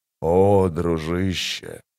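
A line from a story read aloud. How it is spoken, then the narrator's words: Whisper. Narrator (Russian): прошептал Гитол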